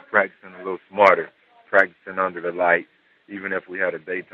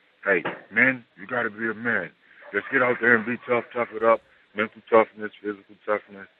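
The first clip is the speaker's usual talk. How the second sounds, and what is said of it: Imitates another person's voice. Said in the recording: “That's a pretty good impersonation. ... Not bad ... That was pretty good.”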